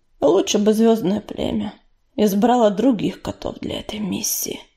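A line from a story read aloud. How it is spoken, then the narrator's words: Gloomy sigh. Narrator (Russian): уныло вздохнул Ураган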